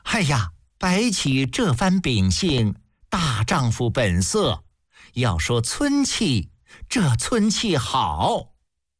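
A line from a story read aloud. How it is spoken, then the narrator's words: Delighted laughing praise. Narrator (Chinese): 宣太后听得大是高兴，笑着赞叹道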